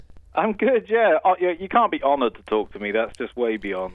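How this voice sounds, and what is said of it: Welsh British accent. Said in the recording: “that's how you do an English accent ... I'm actually Welsh”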